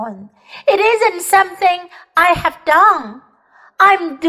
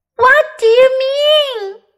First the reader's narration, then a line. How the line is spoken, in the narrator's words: cried Lucy